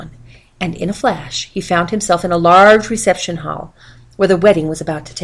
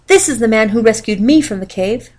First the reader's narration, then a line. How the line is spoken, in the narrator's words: she cried